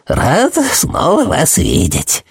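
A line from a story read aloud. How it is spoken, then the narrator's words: Creaky voice. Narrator (Russian): проскрипел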